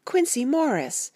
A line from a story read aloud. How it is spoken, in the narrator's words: I cried out